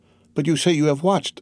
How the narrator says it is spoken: said Valentine uneasily

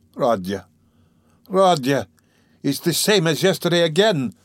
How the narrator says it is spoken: Pulcheria Alexandrovna cried mournfully

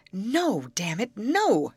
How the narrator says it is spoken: shouted Miss Matilda

